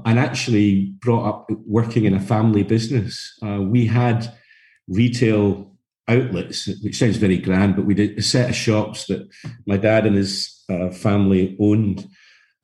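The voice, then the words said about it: Scottish Glasgow accent. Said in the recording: “you can tell from the accent, or your people listening to this will tell from the accent, I come from Scotland. My background is Glasgow,”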